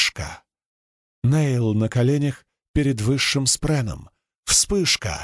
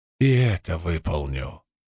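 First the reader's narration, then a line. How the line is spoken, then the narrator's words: Quiet. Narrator (Russian): тихо сказал Нейл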